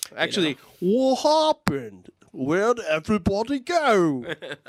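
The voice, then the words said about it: Very bad fake British accent. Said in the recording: “That is the worst British accent since Dick Van Dyke and Mary Poppins.”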